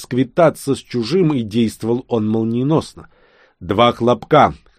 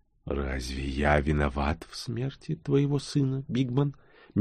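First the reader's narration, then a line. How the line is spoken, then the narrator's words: Gentle question. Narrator (Russian): мягко спросил он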